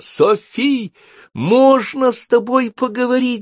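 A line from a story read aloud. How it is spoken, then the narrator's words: Shouting. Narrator (Russian): закричала Софи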